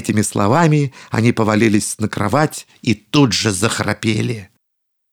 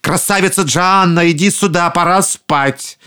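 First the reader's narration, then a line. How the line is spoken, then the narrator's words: Uneasy ogres shouting. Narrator (Russian): людоеды почувствовали неладное и крикнули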